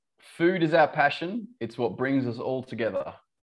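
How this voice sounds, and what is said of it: Light Australian accent. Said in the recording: “we want to hear the Australian, you know, accent ... your Australian accent isn't very heavy”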